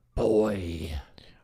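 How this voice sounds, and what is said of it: Imitates the character Kratos. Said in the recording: “Your Kratos impression.”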